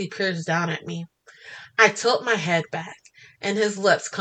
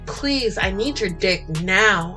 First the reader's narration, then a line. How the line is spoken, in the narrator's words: I growl out in between my harsh pants